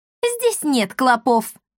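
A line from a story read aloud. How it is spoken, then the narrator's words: Bursting laughter. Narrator (Russian): расхохоталась Бия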